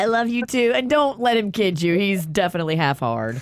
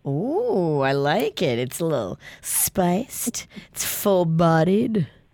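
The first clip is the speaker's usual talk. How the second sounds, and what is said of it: Low, sultry sexy voice. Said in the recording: “That's ... sexy voice, by the way. When she drops down like this. ... It's so sexy.”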